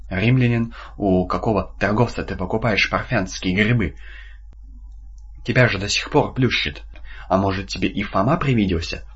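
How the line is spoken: Insinuating question. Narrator (Russian): вкрадчиво спросил Иуда

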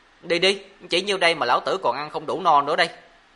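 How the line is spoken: Shouting. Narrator (Vietnamese): Mộ Dung Thiên miệng quát

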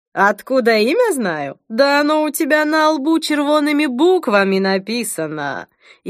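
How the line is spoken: Ringing laughter. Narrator (Russian): звонко рассмеялась

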